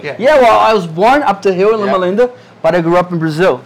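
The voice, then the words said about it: Brazilian accent. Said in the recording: “he has a funny accent ... Because you're actually Brazilian”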